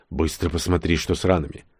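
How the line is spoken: Whispered. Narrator (Russian): я прошептал ему

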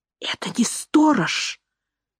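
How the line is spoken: Barely audible. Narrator (Russian): еле слышно произнесла Нэнси

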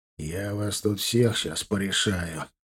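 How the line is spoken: Gloomy grumble. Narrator (Russian): мрачно проворчал Худяков

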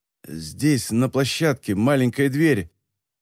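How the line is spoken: Groggy mumble. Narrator (Russian): Дьюзи приходил в себя и, едва открыв глаза, сразу же пробормотал

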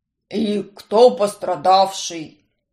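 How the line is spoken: Deep bass voice. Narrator (Russian): вымолвил тот густым басом

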